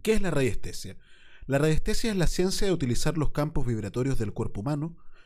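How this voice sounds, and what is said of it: Reads in a radio announcer voice. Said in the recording (Spanish): “con tu linda voz de locutor”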